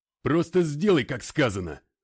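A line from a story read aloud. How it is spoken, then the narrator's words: Snapped. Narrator (Russian): огрызнулся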